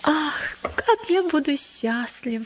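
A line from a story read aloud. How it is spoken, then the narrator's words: Sighing child. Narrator (Russian): вздохнул маленький христианин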